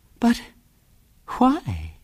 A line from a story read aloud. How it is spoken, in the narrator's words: said Ethel in a very sweet voice